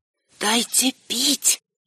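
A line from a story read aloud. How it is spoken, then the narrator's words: Whisper. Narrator (Russian): прошептала я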